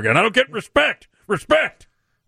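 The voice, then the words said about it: Rodney Dangerfield impression. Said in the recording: “My Rodney Dangerfield impression ... that really was the worst Rodney Dangerfield I've ever heard”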